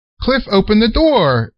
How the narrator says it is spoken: exclaimed Unc

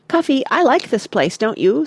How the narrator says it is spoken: said Oliver, in his clear little voice

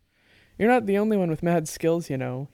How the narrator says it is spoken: he said, chuckling

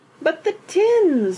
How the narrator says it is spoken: wailed Mrs

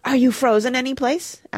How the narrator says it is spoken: asked Mona eagerly

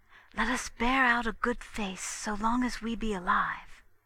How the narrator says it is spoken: Mevrian whispered to Hemming

